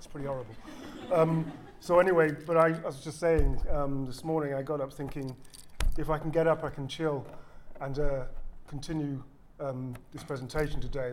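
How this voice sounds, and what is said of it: Weakened voice from illness. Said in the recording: “my voice is a little under par because I've just recovering from the flu”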